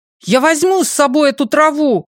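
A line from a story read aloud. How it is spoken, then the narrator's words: Shout. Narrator (Russian): крикнул Ли Чжипин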